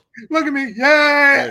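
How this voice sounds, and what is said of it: Screaming. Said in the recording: “Stop screaming at me”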